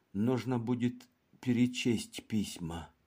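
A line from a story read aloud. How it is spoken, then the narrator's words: Quietly said. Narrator (Russian): тихо сказал адвокат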